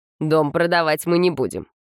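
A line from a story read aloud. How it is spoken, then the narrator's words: Unexpectedly firm reply, brother. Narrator (Russian): неожиданно твердым голосом ответил брат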